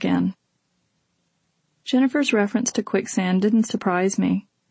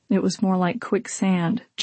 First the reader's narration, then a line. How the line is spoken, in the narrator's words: Jennifer said gloomily